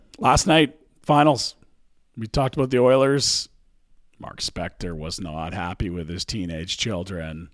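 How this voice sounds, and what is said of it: Badly worn, strained voice. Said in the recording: “My voice is fucking cratered.”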